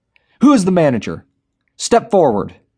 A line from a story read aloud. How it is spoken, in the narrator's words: Darren yelled